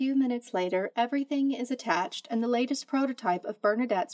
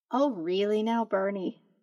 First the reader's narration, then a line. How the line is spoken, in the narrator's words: Zoe says, still chuckling